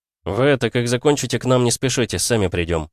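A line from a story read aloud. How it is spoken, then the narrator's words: Plain. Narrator (Russian): сказал я девушке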